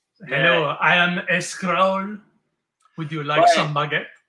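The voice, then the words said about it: Put-on French accent. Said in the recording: “King guy with a French accent”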